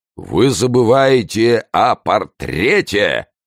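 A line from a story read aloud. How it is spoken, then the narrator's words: Thunderous voice. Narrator (Russian): произнес Портос громовым голосом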